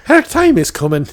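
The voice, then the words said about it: Put-on Irish accent. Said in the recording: “can you say the whole thing with like an Irish accent? It works better.”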